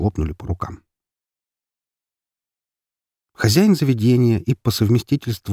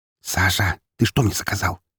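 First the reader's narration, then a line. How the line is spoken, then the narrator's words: Hissed in private. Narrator (Russian): прошипела Марина, едва только мы остались наедине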